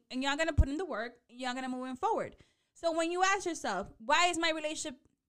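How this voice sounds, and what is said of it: Yelling, loud voice. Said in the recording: “Why am I yelling? ... Let me take it down.”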